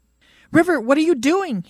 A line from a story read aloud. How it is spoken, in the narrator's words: he shouts in dismay